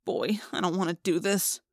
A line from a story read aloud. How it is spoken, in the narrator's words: I muttered